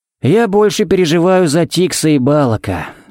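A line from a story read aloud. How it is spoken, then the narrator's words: Sighing. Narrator (Russian): вздохнул Харри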